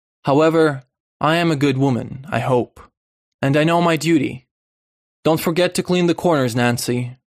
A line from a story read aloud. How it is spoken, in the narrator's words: finished sharply